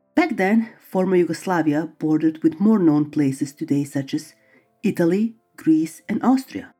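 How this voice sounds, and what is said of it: Eastern European accent. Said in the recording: “I will start by revealing my accent. I was born in former Yugoslavia, a country located in East Europe”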